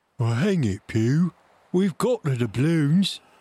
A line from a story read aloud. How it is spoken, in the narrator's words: grumbled